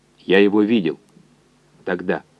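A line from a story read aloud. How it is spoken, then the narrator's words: Quiet. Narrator (Russian): так же тихо сказал координатор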